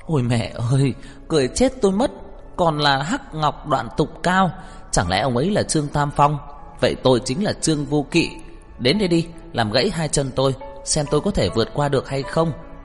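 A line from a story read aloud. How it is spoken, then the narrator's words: Uncontrollable loud laughter. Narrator (Vietnamese): Tô Lạc Hoành lúc này cũng không chú ý lễ nghi phép tắc gì nữa, không nhịn được ngẩng đầu lên cười to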